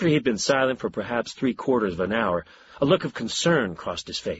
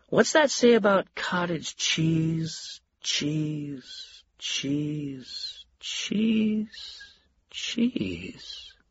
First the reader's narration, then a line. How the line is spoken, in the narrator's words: His voice trailed off